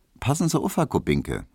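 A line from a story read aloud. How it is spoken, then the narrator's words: Dry, witty. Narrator (German): meinte Hedwig trocken, denn Witz hatte sie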